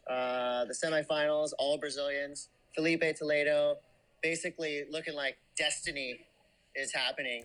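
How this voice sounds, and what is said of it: Excited sports announcer voice. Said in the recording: “you're using your announcer voice... I'm really having a hard time turning it off... You need to use your podcast voice... let me calm down”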